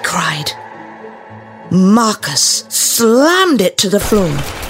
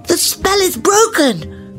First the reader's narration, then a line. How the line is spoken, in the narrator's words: cried Milo